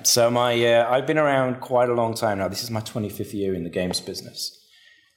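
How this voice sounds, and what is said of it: English Manchester accent. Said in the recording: “my accent isn't quite Australian ... I'm originally from Manchester in England.”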